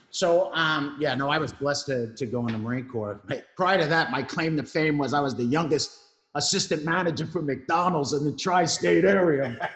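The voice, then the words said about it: New York Brooklyn accent. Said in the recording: “If you didn't notice the accent, it's live from New York. I am, you know, born and raised in Brooklyn”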